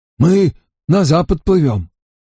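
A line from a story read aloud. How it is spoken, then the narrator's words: Exhausted hoarse question. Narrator (Russian): Он был совершенно измучен и только хрипло спросил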